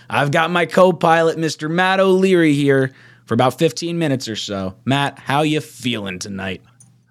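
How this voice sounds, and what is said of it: Hoarse, worn-out voice. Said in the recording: “I can't talk. My voice is absolutely shot.”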